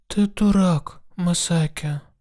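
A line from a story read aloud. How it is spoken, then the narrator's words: Whisper. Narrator (Russian): прошептала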